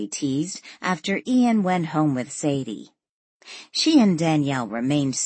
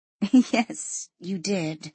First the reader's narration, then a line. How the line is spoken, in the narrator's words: said, suppressing her giggle